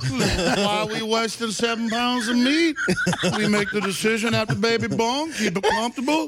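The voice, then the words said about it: Impression of the Virginia governor. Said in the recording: “I love your governor of Virginia.”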